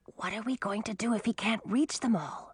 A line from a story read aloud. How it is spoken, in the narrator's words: Millie whispered to Audun